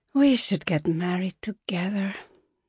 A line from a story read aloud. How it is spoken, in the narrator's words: Zaina said, sighing up to the ceiling